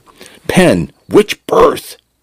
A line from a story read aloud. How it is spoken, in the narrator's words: Jackson shouted